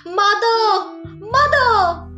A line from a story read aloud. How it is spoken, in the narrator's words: he called out